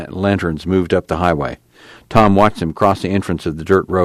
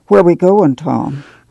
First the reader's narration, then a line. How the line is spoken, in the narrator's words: Ma asked timidly